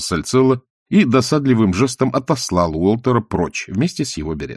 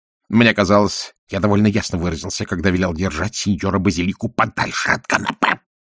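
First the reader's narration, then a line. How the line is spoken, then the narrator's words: Hissing. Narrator (Russian): прошипел он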